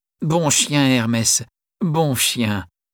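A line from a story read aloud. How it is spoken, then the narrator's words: Plain. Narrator (French): dit Sophie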